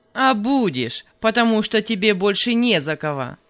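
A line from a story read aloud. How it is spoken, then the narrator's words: Rude, gruff. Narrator (Russian): Грубо сказал Панас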